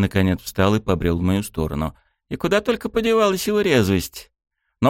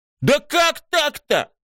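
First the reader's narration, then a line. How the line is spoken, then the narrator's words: Indignant yell. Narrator (Russian): Возмущенно завопил Рёцкий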